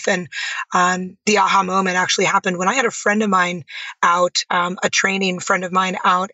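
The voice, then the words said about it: Strained voice. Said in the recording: “as you can probably hear, my voice is a little strained. But it was even worse. It almost sounded like I was sick”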